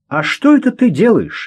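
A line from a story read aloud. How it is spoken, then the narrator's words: Cheerful question. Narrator (Russian): весело спросил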